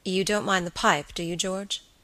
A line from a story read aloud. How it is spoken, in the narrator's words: his friend asked quietly